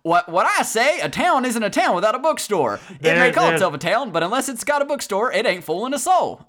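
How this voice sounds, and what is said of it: Good put-on Southern accent. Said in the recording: “That was good Southern.”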